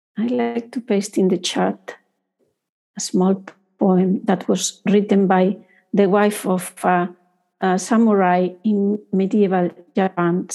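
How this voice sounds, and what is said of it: Foreign accent. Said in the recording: “because I have a foreign accent”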